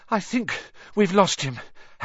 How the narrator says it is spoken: Harry panted

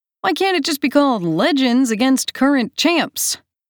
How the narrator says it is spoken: Aiden laughs

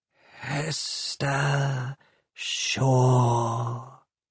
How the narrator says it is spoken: it said, caressing her name with its gas-leak hiss of a voice

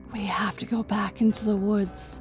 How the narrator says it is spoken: With a heavy heart, she whispered

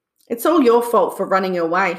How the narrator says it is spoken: he grumbled

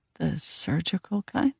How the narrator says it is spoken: I whispered

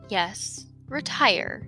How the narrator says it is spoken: said Chester softly

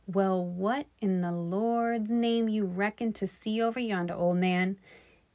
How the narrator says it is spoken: He laughed, but the sound of his own voice shook him

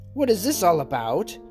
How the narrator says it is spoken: exclaimed he

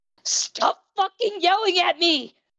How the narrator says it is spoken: Izuku had to scream

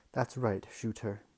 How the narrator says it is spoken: said Lord Asriel

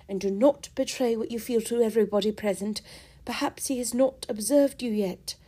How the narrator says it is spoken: cried Eleanor

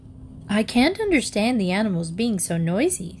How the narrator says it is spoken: said Mrs

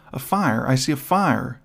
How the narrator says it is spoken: exclaimed Lucille

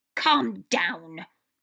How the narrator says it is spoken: Wormtail snapped

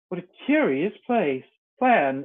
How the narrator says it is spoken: exclaimed Alice

